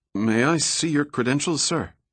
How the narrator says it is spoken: the guard asked nervously

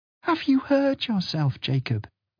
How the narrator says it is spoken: Fiona sighed

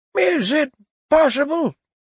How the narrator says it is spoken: he cried

